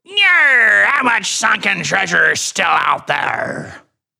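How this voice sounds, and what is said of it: Pirate-like impression of a colleague. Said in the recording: “I told you I would read it like him, and that was a really good impression ... you had me fooled because I couldn't see anything. I thought it was him. ... it sounds just like him. That's a really good impression of him.”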